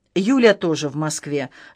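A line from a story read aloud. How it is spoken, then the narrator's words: Dry reply. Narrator (Russian): сухо ответил Вячеслав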